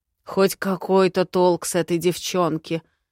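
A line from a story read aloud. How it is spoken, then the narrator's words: Old lord wheezing. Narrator (Russian): захрипел почтенный лорд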